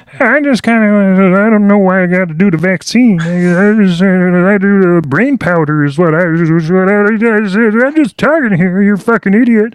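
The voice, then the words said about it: Imitates another person's voice. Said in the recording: “you know how he sounds. He sounds like, ... maybe that's a bit more Jordan Peterson, but he sounds kind of like that ... you sound like a fucking moron”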